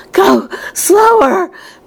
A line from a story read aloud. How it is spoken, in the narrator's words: panted Mrs